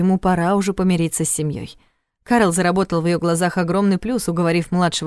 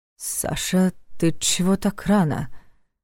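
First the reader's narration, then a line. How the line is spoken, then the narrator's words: Slightly hoarse asking. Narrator (Russian): Чуть охрипшим голосом поинтересовался он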